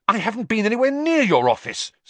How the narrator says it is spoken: said Harry angrily

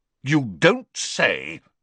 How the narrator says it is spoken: said the Prime Minister furiously

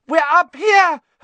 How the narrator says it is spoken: Hermione screamed suddenly

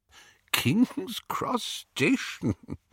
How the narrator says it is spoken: Dumbledore was chuckling immoderately

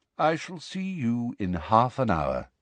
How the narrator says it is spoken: said Dumbledore quietly

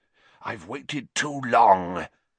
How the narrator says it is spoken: he hissed

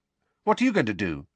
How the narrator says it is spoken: asked Harry quickly

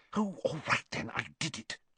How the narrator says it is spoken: she whispered

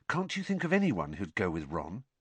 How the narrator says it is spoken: he said, lowering his voice so that Ron wouldn't hear

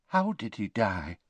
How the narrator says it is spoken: whispered Tonks

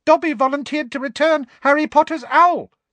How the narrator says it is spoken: said the elf squeakily, with a look of positive adoration on his face

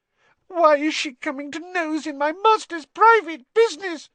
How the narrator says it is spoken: sobbed Winky

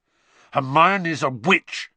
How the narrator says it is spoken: Harry snarled

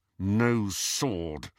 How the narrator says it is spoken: said Harry through gritted teeth

